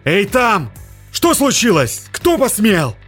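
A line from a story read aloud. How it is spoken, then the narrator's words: Shouting. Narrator (Russian): закричал капитан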